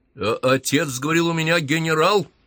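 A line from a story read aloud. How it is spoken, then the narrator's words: Growled. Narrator (Russian): прорычал Кузнецов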